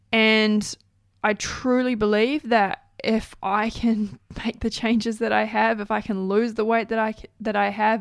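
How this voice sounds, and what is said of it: New Zealand Kiwi accent. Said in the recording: “ramble on in a weird Kiwi accent”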